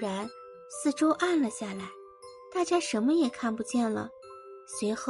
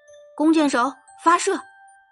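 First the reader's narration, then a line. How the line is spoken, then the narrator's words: Commander shouting. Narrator (Chinese): 弓箭队长大喊一声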